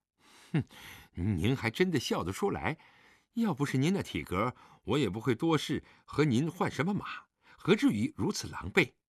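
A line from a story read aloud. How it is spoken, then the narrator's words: Annoyed grumbling. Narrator (Chinese): 李元芳知道狄仁杰在笑自己……嘴里嘟囔着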